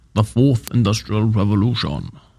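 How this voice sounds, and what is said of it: German accent, Klaus Schwab impression. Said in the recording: “I should almost say that with like a German accent ... My best, it's my best Klaus Schwab right there.”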